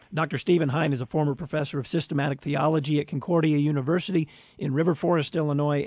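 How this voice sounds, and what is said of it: Slightly rough, hoarse voice. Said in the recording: “my voice is still a little rough”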